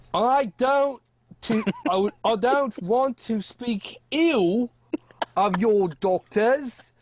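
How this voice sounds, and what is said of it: Attempted Scottish accent, fairly close. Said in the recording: “Can you do a Scottish accent? ... That's close. ... That's very close. It's not bad. First go.”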